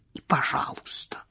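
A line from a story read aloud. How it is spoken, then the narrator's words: Choked angry tearful whisper. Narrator (Russian): прошептала Лёлька, давясь злыми слезами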